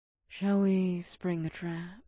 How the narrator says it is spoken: Ada whispered

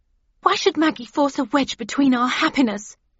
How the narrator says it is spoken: she demanded angrily

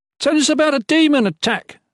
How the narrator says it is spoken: someone yelled before he could squeeze a word out

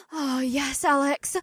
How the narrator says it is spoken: May gasped

